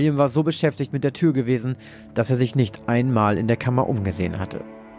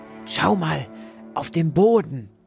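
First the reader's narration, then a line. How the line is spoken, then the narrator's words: Whisper. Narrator (German): flüsterte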